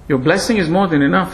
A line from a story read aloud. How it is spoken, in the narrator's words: said Bhima